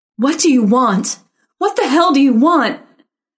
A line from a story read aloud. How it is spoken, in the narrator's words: Karen meant to say, but shrieked it instead